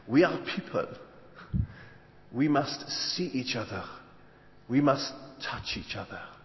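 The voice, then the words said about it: Rough imitated French accent. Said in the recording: “Excuse this French accent, it's going to be a bit ropey.”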